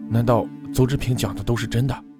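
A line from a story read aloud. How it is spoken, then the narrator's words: Frightened. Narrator (Chinese): 郑畅……惊恐道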